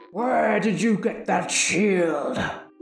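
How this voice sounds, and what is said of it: Evil villain character voice. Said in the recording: “can you do an evil voice? ... you're gonna have to put the booming reverb on it”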